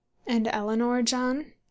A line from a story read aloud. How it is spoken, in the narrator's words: said the sister, looking timidly